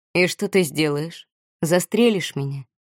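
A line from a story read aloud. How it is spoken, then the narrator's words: Soft question. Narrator (Russian): мягким голосом спросил Этьен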